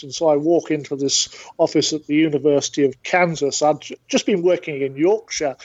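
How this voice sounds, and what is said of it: British accent. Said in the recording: “I'm from the UK originally, but I've been in the States for 40 years ... the accent has not changed as much as I would like”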